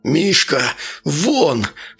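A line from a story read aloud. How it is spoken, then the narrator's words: Growling. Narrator (Russian): зарычал на него Архип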